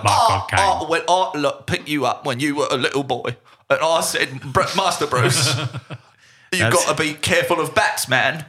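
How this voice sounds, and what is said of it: Caine accent impression. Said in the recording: “I retract my statement about your accent work.”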